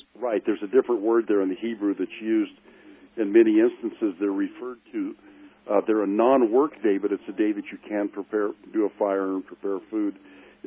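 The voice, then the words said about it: Hoarse, fading voice. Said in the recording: “It's like allergy season for me, so I'm losing my voice.”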